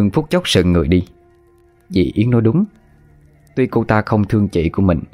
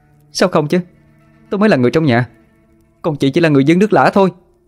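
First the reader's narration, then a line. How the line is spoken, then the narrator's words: Shouting back over her. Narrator (Vietnamese): Yến cũng không dựa, quát lấn át lại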